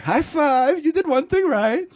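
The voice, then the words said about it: Put-on comedic foreign accent. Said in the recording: “Oh, that was a good accent.”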